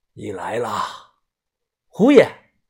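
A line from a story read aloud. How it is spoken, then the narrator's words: Slow, hoarse. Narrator (Chinese): 他慢慢的，声音沙哑的说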